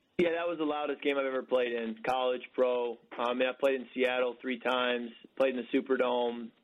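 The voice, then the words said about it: Hoarse, strained voice. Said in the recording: “Lost my voice yelling in the Superdome yesterday”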